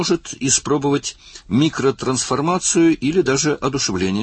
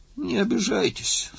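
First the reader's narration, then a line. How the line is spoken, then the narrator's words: Sleepy. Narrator (Russian): сонно произнес Лик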